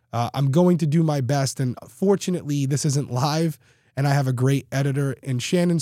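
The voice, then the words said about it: Congested, raspy, tired-sounding voice. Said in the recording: “I don't sound great. I'm still a little tired and my voice is just way far behind. I'm still very congested and a little raspy”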